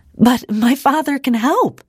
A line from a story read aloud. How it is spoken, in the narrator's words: Ida exclaimed